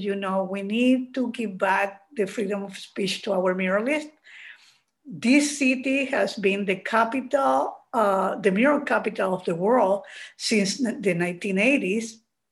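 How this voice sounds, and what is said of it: Chilean-accented English. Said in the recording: “a very Chilean accent”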